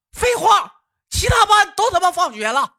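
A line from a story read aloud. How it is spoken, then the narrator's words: Annoyed loud shout. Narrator (Chinese): 底下的雪儿啊不乐意的高声呐喊道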